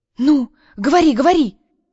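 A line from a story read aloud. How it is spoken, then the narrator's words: Loud whisper. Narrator (Russian): Громко зашептала Жека, обдавая его лицо теплым сильным дыханием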